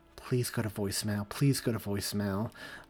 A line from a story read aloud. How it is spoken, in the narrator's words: she mumbled to herself